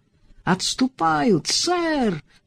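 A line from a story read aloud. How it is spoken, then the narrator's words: Triumphant yell, young man. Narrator (Russian): торжествующе заорал юный капрал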